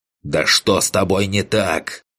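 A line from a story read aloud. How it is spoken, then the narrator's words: Hateful growl. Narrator (Russian): прорычал я, с ненавистью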